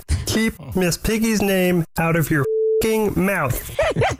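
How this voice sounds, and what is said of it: Kermit the Frog character voice. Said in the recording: “this guy's Kermit impression”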